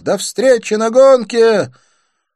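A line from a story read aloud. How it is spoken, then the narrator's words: Shouted. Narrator (Russian): крикнув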